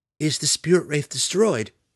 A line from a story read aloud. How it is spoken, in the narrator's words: Maya cried in sincere distress